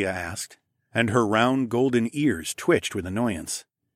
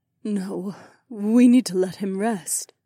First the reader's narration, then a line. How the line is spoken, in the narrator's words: Aliona sighed